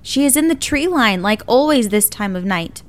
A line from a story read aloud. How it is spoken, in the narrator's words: Crane's body is immediately cold and stiff as he yells out loudly